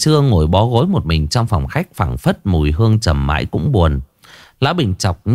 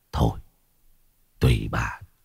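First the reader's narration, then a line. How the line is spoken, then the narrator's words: Old man sighing. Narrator (Vietnamese): Lão thở dài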